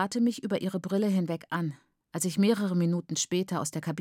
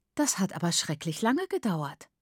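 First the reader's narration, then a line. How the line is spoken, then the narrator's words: Plain. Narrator (German): sagte Mrs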